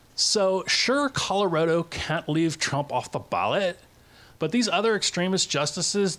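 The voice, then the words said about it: Valley girl voice. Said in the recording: “I'll be doing it as a Valley girl.”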